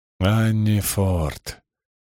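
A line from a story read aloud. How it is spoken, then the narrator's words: Grim. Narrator (Russian): мрачно кивнул Симеон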